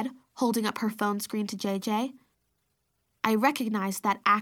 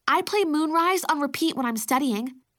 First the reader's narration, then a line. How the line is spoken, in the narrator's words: I blurted out